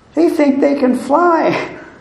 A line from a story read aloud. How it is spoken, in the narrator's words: chuckled